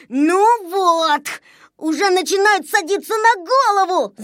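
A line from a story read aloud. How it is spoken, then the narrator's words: Shouting. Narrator (Russian): закричал Незнайка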